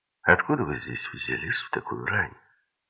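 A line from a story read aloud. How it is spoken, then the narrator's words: Dull, muffled. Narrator (Russian): сказала она глухо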